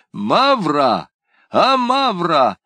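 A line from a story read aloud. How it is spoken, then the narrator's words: Shouted. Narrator (Russian): закричал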